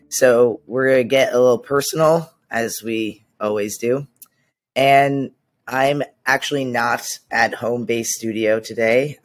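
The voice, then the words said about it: Hoarse, nearly lost voice. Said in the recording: “as you can hear, just lost my voice ... It's gone ... laryngitis”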